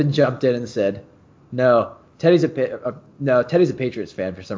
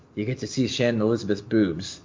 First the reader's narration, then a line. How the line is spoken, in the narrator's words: whispered